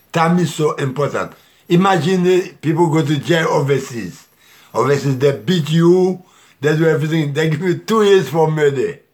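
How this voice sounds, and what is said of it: French accent. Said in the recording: “I got French accent.”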